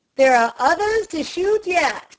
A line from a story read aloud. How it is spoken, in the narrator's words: cried the major